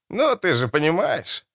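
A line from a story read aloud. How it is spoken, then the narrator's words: Grunt. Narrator (Russian): хмыкнул Меллифант, побагровев лицом почти как мистер Помрой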